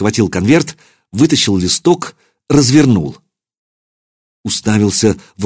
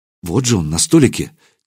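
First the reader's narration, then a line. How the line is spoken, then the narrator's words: Quiet. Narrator (Russian): тихо произнесла Настя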